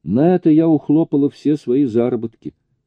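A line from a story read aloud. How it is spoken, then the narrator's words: Laughing. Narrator (Russian): сказала, смеясь, Джуди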